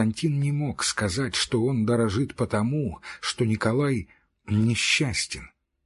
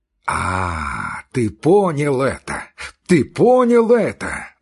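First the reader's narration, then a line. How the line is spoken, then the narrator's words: Joyful shout. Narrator (Russian): радостно закричал Николай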